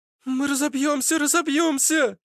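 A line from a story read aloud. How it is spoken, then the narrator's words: Hysterical scream. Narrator (Russian): Вдруг истошно закричала Аглая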